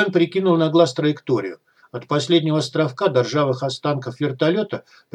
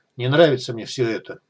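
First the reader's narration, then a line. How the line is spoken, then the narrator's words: Grumbling mutter. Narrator (Russian): буркнул Айвен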